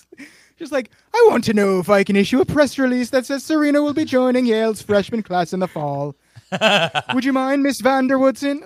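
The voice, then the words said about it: Imitated faux British accent. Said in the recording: “sounded like Paul F. Tompkins doing his Andrew Lloyd Webber impression ... accent ... It's like 6 degrees of an actual British person”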